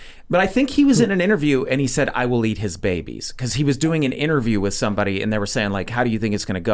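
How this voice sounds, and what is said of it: Usual voice. Nothing is said of it.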